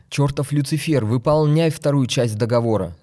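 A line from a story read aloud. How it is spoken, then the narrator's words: Shouted. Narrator (Russian): закричал Мишанов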